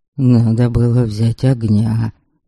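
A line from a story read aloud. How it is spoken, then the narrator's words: Low undertone. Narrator (Russian): вполголоса заметил Хакон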